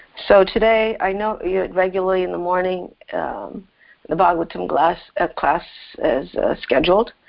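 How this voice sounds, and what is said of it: Sore voice. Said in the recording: “I've been suffering from hay fever for the last 3 weeks. So my voice is a little bit sore, and I have a tendency to cough occasionally.”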